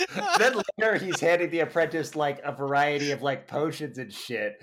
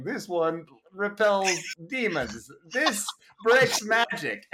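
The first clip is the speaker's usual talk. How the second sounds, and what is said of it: Dracula-like Transylvanian accent, Jeff Bridges. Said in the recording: “Your accent ... is so good. ... I'm back to fucking Dracula. ... So Transylvanian.”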